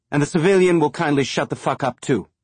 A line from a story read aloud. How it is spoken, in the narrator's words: Rona snapped behind them